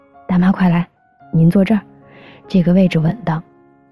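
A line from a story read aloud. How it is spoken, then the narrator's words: Warm, smiling welcome. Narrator (Chinese): 旁边那位……满脸笑容地说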